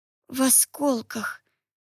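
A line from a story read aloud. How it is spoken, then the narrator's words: Moaned. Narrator (Russian): простонала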